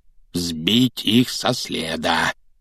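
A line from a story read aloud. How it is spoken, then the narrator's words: Repeated muttering. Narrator (Russian): всякий раз бормотал дядя Вернон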